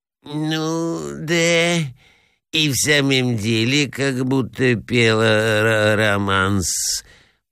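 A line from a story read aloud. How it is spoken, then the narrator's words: Thoughtful murmur. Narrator (Russian): пробормотал князь в задумчивости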